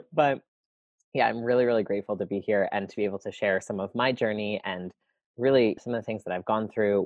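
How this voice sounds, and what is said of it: Cracky, allergy-affected voice. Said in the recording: “I have really bad allergies today, so my voice is not normally this like cracky.”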